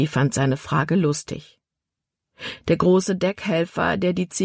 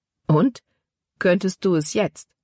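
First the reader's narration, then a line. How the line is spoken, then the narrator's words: Plain question. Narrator (German): fragte Caleb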